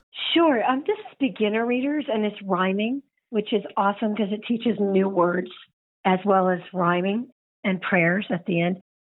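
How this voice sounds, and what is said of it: Unwell, allergy-affected voice. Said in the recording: “sorry about my voice. I got allergies”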